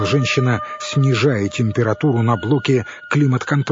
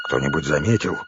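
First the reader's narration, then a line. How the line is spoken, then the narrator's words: Tense male question. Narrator (Russian): напряженным тоном спросил мужчина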